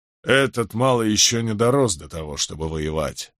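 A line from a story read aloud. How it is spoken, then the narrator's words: Grumbling. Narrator (Russian): проворчал Гектор Джонсон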